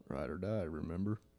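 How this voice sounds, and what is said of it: Low, slow, gravelly voice impression. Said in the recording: “he talks really low ... I can't just talk really slow ... every time I try to do it, I sound like Southern ... like the gravel”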